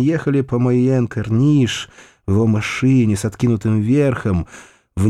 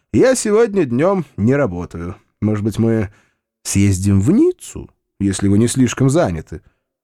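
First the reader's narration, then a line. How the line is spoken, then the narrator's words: Cheerful. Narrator (Russian): Рауль весело сказал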